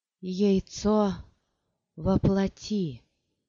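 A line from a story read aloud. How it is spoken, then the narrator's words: Strained hoarse croak. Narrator (Russian): С трудом прохрипела она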